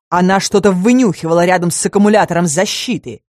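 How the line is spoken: Werewolf snapping. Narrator (Russian): огрызнулся оборотень

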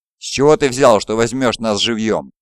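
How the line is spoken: Growl. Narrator (Russian): прорычал Салара

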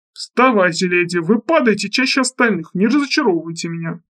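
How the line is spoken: Grumbling. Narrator (Russian): ворчал он

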